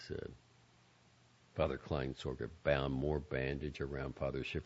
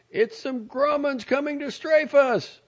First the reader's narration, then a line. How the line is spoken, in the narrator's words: Someone in the crowd near the Nakamura family shouted